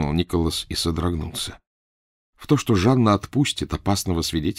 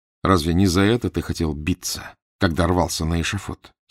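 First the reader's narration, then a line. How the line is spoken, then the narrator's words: Plain question to oneself. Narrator (Russian): спросил себя Фандорин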